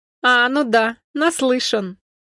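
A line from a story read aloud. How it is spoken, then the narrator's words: Carefree laughter. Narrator (Russian): Константин беззаботно рассмеялся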